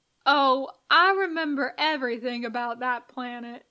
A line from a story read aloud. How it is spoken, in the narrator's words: Leonard says